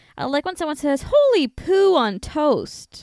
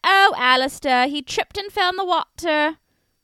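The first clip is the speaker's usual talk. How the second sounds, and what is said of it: Convincing put-on accent. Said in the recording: “Oh, that's a good accent. You're good at that.”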